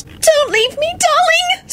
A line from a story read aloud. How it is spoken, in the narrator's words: Solange wailed